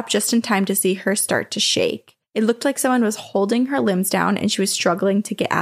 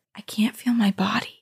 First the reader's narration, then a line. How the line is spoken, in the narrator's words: I heard her whisper